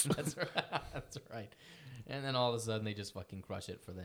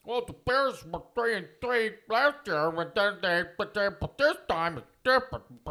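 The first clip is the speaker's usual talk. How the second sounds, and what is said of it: Imitates another person's voice. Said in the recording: “This is my Troy Aikman impersonation ... That's how Troy Aikman sounds. ... That really sounds like Troy Aikman.”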